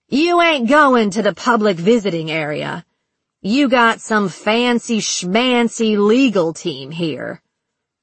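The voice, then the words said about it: Sarcastic Southern accent. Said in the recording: “her southern accent heavy with sarcasm”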